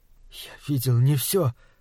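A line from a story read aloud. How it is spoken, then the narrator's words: Halting. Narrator (Russian): сказал Малаки, запинаясь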